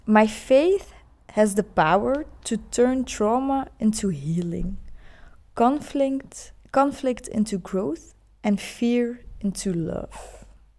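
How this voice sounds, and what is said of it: Non-native accent reading English. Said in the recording (Dutch): “Don't mind my, mijn, accent.”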